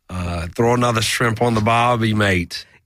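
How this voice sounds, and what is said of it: Pretty good put-on Australian accent. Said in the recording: “your Australian? ... That's pretty good. I thought that did sound different than your British accent.”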